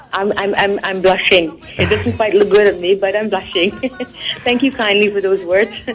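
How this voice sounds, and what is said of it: Pleasant accented speaking voice. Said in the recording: “you have the best sounding voice ... I love your voice and your accent”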